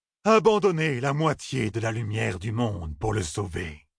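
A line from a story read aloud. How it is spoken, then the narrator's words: Hissing steam-like chorus. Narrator (French): Ensemble, les deux femelles et le mâle crièrent d'une voix suintante comme de la vapeur qui s'échappe sous la pression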